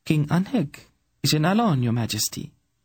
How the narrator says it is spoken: Tenedra replied coolly

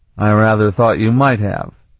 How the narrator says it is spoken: he replied blandly

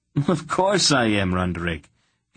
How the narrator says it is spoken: Geryon exclaimed

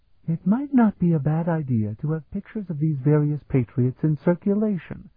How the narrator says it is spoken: Sephrania murmured

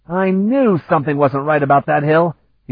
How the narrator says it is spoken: he exclaimed, cursing his own inattention

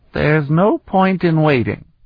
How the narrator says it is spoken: Vanyan told them, his voice bleak

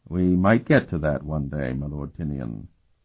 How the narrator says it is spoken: Curic muttered

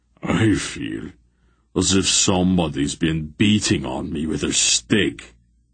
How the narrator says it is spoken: Barak groaned

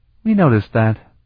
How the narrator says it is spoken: Sarabian replied dryly

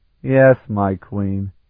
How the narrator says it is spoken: he replied in a resigned tone of voice

